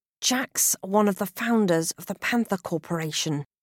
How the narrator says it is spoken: hiss

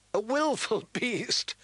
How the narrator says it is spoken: laughed a handsome young man

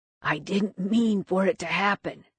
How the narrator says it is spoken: he said hoarsely

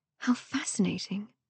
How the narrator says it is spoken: Cecilia murmured, as if she had just witnessed fairies dancing through the chamber

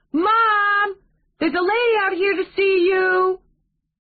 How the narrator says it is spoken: trot toward the door and shout

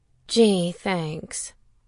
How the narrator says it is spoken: she said dryly

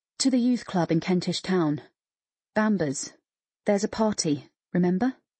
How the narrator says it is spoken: he said softly

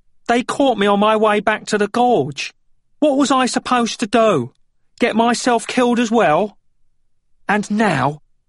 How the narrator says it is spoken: Fox yelled at him

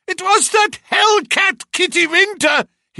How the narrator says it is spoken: he cried

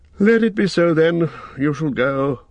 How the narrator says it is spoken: said Elrond, and he sighed

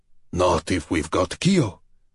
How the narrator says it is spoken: Dragozani growled

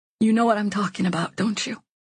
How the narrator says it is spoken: I whisper

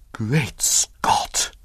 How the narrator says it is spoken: he whispered hoarsely

